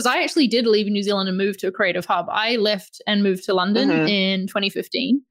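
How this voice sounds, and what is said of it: New Zealand accent. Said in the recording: “I'm from New Zealand, that I've got this accent ... your accent is so good”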